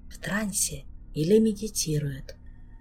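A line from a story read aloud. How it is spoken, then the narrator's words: Barely audible remark. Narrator (Russian): чуть слышно прокомментировал Ален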